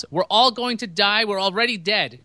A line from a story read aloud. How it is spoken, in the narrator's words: Defoe yells